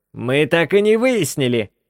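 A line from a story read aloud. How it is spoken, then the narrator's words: Shout. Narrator (Russian): закричал Гроут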